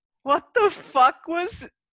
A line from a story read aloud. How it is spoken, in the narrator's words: a third person is laughing and is like, he says